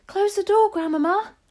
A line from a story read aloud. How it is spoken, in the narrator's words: cried